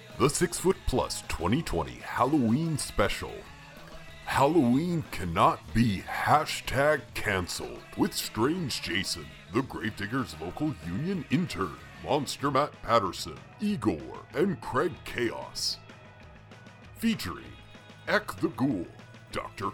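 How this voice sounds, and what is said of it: Deep-voiced narrator voice. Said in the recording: “deep voice cousin narrator”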